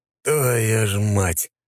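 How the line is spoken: Through gritted teeth. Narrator (Russian): процедил Матвей сквозь зубы

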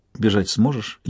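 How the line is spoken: Barely audible whisper. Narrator (Russian): еле слышно шепнула на ухо

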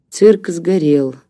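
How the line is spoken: Gloomy. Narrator (Russian): мрачно сказал профессор

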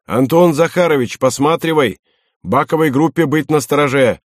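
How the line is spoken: Shouted. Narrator (Russian): Рябинин крикнул

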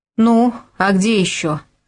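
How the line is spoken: Plain, woman's voice. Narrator (Russian): ответила женщина

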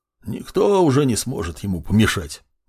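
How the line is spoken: Displeased mutter. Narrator (Russian): недовольно буркнул Артурс

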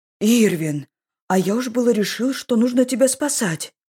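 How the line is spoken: Exclaimed. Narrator (Russian): воскликнул Сан

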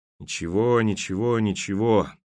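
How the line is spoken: Muttered under breath. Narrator (Russian): под нос себе пробормотал Береговой

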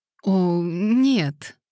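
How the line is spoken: Uncertain reply. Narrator (Russian): неуверенно отозвалась мисс Лейтон

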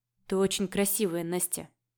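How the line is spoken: Mumbled. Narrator (Russian): пробормотал маг

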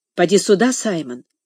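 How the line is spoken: Whisper. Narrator (Russian): прошептала Касси

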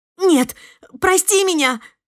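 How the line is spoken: Babbling. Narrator (Russian): залепетала Эвелин

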